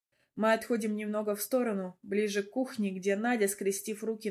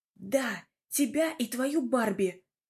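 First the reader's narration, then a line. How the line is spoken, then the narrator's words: Whispered shout. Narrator (Russian): кричит она шепотом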